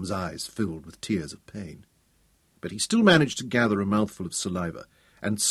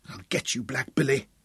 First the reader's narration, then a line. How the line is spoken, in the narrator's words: Tom promised in a painful whisper